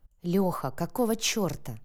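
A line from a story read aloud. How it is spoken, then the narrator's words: Through gritted teeth. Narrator (Russian): процедил Матвей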